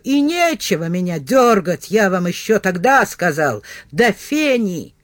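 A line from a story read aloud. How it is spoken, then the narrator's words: Shout. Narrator (Russian): Кролл криво ухмыляясь, крикнул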